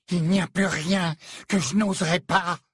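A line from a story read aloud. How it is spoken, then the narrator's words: Breathless hysterical reply. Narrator (French): répliqua Narcissa dans un souffle, une pointe d'hystérie dans la voix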